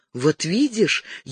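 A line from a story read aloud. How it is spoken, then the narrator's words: Breathless whisper. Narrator (Russian): еще не отдышавшись, прошептала Розамунда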